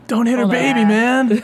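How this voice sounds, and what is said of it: Stereotypical California high school teen voice. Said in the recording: “That's like the most stereotypical high school kid impersonation. ... In a California high school teenager.”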